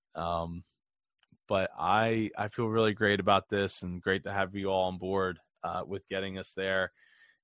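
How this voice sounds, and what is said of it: Strained, worn-out voice. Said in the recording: “I don't know if you can tell, my voice is feeling like it's shot.”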